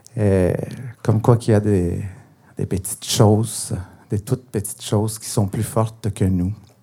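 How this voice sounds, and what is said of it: Spanish-accented French. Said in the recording (French): “l'espagnol est ma langue maternelle ... il y a encore un accent. J'ai encore un accent”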